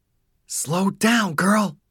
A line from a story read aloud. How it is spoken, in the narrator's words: Donald hissed to himself